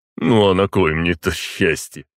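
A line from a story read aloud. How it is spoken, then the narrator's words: Snorting. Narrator (Russian): хмыкнул Дмитрий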